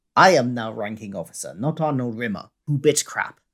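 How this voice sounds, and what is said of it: Imitates a character's accent, badly. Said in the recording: “Terrible accent there, sorry.”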